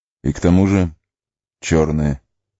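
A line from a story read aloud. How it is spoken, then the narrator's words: Grim addition. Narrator (Russian): мрачно добавил Арагорн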